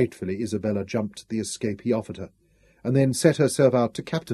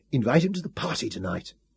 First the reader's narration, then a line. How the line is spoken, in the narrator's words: hissed at her